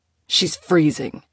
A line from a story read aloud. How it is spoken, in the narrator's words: Kaylin snapped